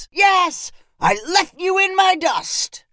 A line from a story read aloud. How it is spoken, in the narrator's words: Brooks shouted to Roscoe